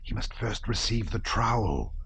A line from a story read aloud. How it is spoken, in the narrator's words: whispered one of the brothers